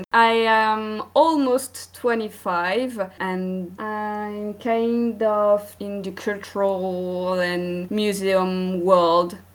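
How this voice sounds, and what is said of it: French accent. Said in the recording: “I'm from France. You may hear it by my accent.”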